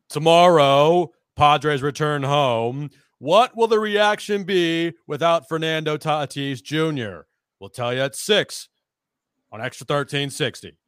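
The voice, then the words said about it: Loud imitation of another person's voice. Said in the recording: “your best Hartman impersonation ... You just have to get loud ... That was pretty good”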